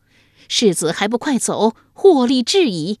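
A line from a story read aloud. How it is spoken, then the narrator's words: Loud woman's voice. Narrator (Chinese): 马脸妇人，大声说道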